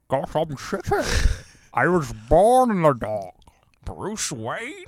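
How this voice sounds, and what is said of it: Bane impression. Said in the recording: “was that a good Bane impression?”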